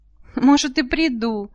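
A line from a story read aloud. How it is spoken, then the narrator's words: Laughing. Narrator (Russian): засмеялась Зоя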